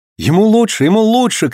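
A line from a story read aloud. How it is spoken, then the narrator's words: Shout. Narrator (Russian): крикнул Роберт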